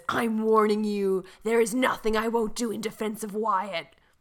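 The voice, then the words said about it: Impression of soap character Quinn. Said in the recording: “Is that a good Quinn impression? ... That's really good. That's really, really good.”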